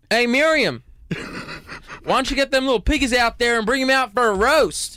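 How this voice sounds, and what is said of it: Put-on American country accent. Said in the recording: “I'll start with a country accent first... Here's the one line I know for a country accent. Either from Texas or, like, Alabama... Pretty good. No?... Not bad”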